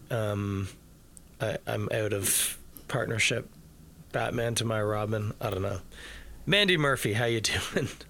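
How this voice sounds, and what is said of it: Sleepy, tired-sounding voice. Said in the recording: “You sound a little sleepy.”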